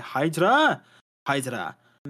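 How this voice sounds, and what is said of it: Terrible put-on German accent. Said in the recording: “That was my terrible German accent”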